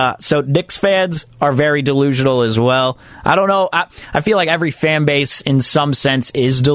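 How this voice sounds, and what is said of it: Usual voice. Nothing is said of it.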